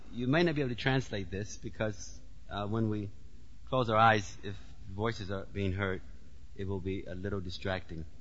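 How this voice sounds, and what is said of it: Heavy accent. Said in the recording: “My accent is sometimes a little heavy.”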